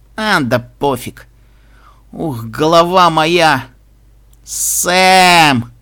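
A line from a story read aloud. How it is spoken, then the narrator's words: Drawling aloud. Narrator (Russian): протянул Пегаска вслух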